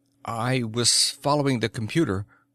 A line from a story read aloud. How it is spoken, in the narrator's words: said Krabo in a slightly wavering voice